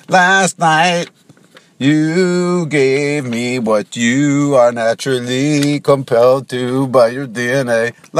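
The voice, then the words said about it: Imitates a female singer's voice, singing. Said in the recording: “That was a pretty good Rihanna impression.”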